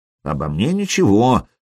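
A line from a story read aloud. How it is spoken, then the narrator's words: Grumbling. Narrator (Russian): проворчал Хузарин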